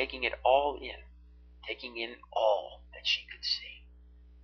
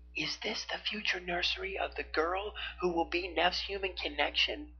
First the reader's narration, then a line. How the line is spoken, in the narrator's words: Arya whispered